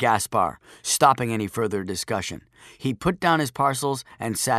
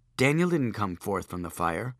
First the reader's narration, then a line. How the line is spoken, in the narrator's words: Joshua said calmly